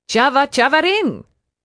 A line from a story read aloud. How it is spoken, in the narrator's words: Aunt Irma snapped